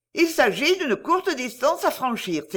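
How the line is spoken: Exclaiming. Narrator (French): s'écrie-t-elle

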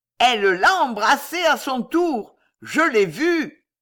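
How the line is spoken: Chubby man sneering. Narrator (French): répondit le gros joufflu en ricanant

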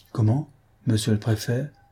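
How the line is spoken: Stammering official. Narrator (French): balbutia le fonctionnaire

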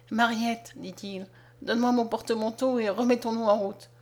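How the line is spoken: Broken voice. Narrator (French): d'une voix brisée

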